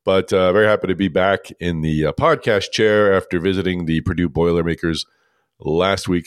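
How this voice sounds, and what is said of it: Scratchy voice from a cold. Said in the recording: “I've got a bit of a cold, so please excuse my scratchy voice”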